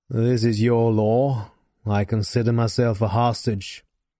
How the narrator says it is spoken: he growled

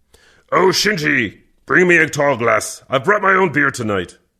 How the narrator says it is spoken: Kervec grunted

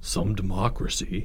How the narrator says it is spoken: Albert groaned

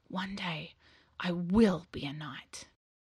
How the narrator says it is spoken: He whispered to himself

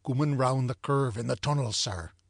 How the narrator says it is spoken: he said

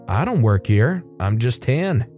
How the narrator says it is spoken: said in the most even tone possible

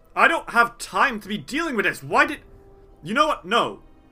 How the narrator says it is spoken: He snarls and says

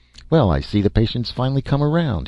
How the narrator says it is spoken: he said cheerfully

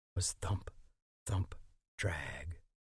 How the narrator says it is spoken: Eddie would whisper

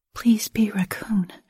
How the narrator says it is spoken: whispered under my breath

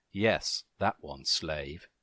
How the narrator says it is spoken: she said

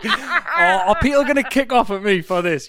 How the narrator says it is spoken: You laugh

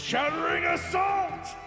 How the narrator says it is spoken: yell

